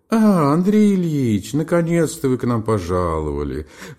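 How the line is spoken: Singsong exclamation. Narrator (Russian): воскликнула она нараспев

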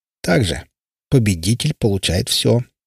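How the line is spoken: Envious snort. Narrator (Russian): завистливо хмыкнул бармен

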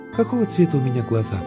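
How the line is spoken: Sigh, sudden question. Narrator (Russian): Девушка вздохнула и вдруг спросила

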